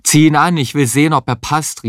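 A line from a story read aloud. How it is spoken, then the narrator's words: Shouting with full mouth. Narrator (German): rief Heinz mit vollem Mund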